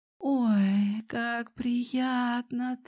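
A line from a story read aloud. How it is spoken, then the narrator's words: Pleased purr. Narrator (Russian): Довольно промурлыкала Алсу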